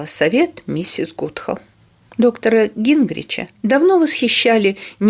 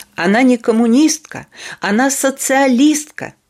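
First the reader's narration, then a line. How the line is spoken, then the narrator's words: Shouting. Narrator (Russian): кричал доктор Кедр на заседании совета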